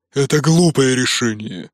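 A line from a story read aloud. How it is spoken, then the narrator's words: Growl. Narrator (Russian): прорычал Нуки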